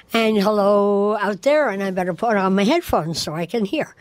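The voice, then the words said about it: Hoarse voice from laryngitis. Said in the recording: “Still getting over a little bit of laryngitis”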